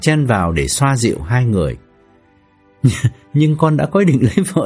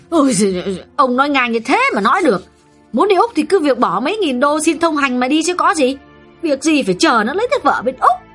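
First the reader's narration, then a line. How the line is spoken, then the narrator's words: Snapping irritably. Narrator (Vietnamese): Bà vợ gắt lên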